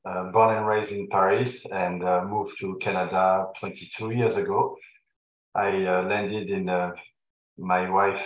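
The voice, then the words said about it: Slight French accent. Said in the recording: “an ever so slight French sounding accent ... the accent is uh, is real ... imported from France”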